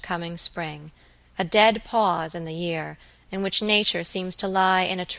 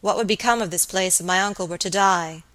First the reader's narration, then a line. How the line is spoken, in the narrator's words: he thought